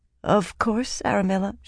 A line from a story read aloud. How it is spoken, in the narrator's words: she said meekly